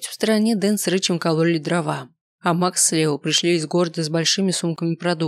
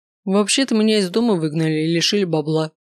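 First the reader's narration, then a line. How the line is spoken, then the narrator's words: Scoffing snort. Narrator (Russian): хмыкнул тот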